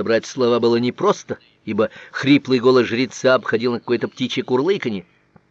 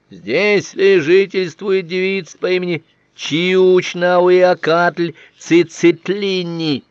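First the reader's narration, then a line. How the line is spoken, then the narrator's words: Loud request, priest. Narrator (Russian): Один из жрецов громко попросил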